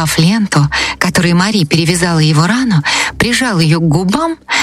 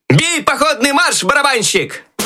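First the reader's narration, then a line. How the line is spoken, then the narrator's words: Loud shout. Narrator (Russian): Громко крикнул Щелкунчик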